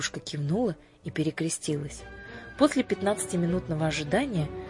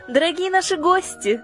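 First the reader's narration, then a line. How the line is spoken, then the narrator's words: Joyful exclamation. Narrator (Russian): радостно воскликнула леди Батв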